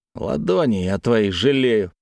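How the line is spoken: Grumble. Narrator (Russian): проворчал Чеглинцев

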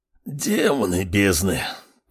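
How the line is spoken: Hiss. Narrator (Russian): прошипел Радгаз

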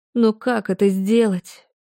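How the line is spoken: Breathy exhale. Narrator (Russian): Выдохнула я

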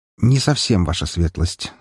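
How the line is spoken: Calm. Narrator (Russian): сказал спокойно

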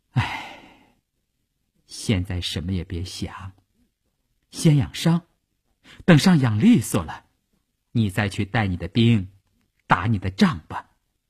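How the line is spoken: Sighing. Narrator (Chinese): 他叹了一口气说

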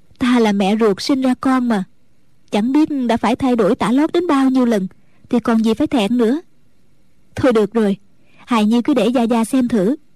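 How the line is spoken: Smiling mother. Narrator (Vietnamese): Mẫn Nhu mỉm cười nói

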